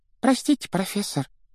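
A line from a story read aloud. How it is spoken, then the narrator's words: Squeaky. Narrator (Russian): пропищала Парвати Патил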